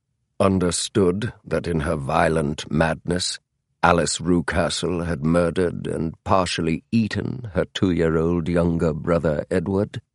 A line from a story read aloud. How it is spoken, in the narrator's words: Holmes asked blandly